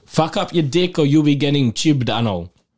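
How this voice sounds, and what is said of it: Put-on Scottish accent. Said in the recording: “excuse my Scottish impersonation.”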